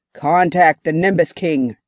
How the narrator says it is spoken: growled

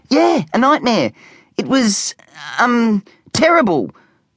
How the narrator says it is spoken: stuttered Specky, trying his best to sound convincing, even though he knew he wasn't doing a very good job

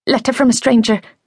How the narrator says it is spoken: gabbled frantically

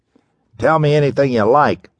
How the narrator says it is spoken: snapped Weldon

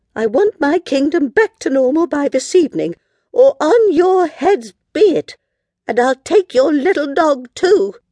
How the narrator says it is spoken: cried the moody queen

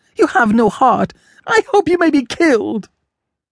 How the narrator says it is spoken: she cried

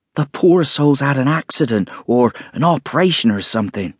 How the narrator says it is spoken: said Mrs

